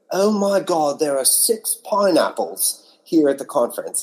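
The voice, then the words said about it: Poor put-on British accent. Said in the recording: “my poor British accent”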